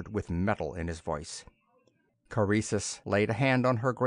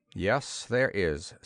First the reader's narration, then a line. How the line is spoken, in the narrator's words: said Corun flatly